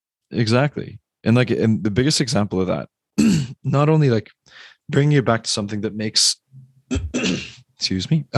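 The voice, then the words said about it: Strained, hoarse throat. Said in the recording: “I don't know why my throat's like screwed right now... my podcast voice is going away”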